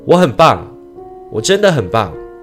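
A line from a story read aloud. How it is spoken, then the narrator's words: Loud shout. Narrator (Chinese): 他大声地喊了出来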